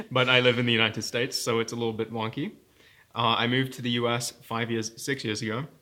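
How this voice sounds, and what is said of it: British accent. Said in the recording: “a friend with a British accent ... I am British and I have a British accent”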